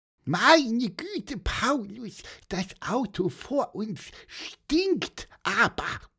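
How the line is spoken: Squeaky voice. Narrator (German): piepste Pieper

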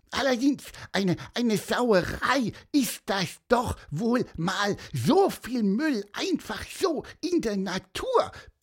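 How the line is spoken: Squeaky, very indignant. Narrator (German): piepste Pieper, sehr empört

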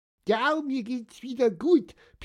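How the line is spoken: Squeaky voice. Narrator (German): piepste Pieper

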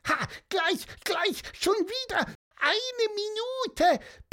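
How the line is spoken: Squeaky. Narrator (German): piepste er

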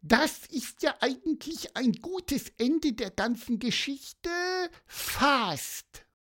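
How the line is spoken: Squeaking. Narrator (German): piepste Pieper

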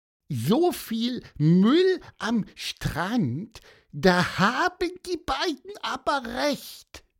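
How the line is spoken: Squeaky. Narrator (German): piepste er

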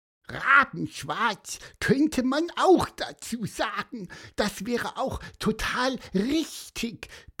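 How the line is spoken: Squeaky. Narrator (German): piepste Pieper

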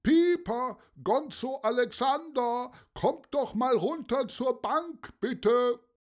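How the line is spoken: Calling voice. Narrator (German): eine Stimme, die rief

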